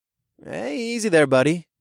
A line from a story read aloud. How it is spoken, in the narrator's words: said in an amused tone